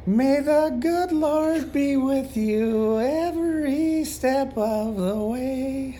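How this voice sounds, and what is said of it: Raspy imitated singer voice. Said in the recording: “my Rod Stewart voice ... My little raspy, losing my voice like Rod Stewart”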